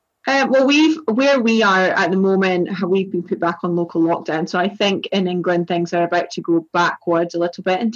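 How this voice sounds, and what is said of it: Strong East Coast Scottish accent. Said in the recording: “I'm from Scotland ... my accent is the East Coast of Scotland ... it's still pretty strong”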